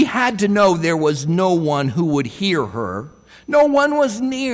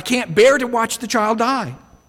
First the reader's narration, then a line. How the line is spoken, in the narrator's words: She cried out